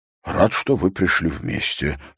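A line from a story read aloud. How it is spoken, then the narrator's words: Muttered. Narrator (Russian): пробормотал он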